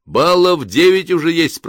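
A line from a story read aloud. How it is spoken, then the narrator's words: Shouting. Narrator (Russian): прокричал он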